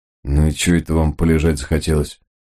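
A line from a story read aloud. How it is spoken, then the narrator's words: Displeased question. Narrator (Russian): Командир группы недовольным тоном спросил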